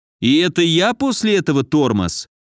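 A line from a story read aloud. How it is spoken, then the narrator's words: Snide question. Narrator (Russian): Ехидно осведомился Федя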